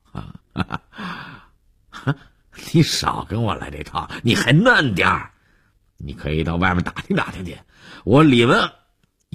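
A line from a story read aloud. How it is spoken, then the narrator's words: Startled pause, then laughing. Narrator (Chinese): 愣了一下，又笑着说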